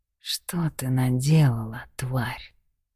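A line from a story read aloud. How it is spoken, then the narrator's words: Quiet menacing hiss in ear. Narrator (Russian): Тихо в самое ухо процедил Чарли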